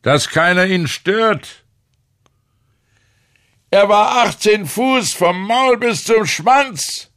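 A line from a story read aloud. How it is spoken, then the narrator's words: Calling out. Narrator (German): rief der Fischer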